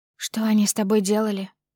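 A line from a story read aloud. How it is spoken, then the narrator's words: Barely audible. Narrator (Russian): выговариваю еле слышно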